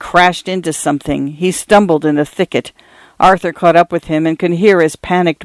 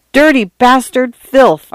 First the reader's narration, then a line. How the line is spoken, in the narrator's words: Arthur cried